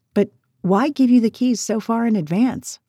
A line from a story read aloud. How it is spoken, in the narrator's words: Lake said